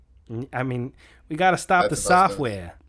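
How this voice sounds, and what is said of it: Put-on Boston accent. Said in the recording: “Is that supposed to be a Bostonian accent?”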